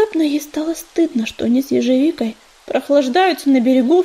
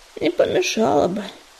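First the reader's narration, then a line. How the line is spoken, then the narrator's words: Sighing. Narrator (Russian): вздохнул ежевика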